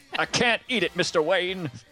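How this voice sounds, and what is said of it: Imitates another person's voice. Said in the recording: “That was a Mr. Nicolas Cage. ... That was an awesome impression.”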